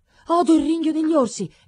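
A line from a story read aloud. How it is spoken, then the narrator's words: Maiden's exclamation. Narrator (Italian): esclamò la donzella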